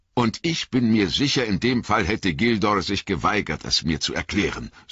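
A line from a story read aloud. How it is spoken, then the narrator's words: Sharp. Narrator (German): sagte Frodo scharf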